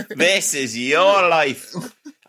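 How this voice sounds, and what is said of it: Put-on Irish accent. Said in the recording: “I'm doing it in an Irish accent”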